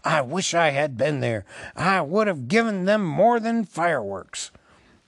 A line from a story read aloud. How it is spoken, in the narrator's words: muttered